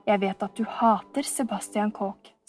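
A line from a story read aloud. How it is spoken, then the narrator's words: Low voice. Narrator (Norwegian): sa han med lav stemme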